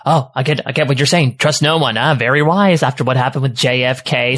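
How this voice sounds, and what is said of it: Fast-talking nerdy conspiracy-theorist voice. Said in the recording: “a good impression ... I do fast-talking nerd very well.”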